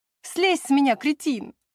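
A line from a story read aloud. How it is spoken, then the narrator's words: Laughing. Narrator (Russian): Рассмеявшись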